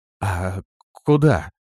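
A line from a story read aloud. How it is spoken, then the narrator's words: Trembling voice. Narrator (Russian): дрожащим голосом спросила Лирея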